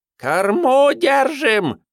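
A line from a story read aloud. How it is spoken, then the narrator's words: Shrill distant scream. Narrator (Russian): Визгливо возопила где-то сзади Надежда Вениаминовна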